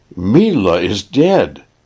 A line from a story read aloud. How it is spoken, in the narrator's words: he cried, with a gasp in his breath